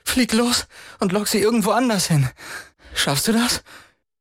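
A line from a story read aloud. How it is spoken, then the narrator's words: Panting. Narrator (German): keuchte Chris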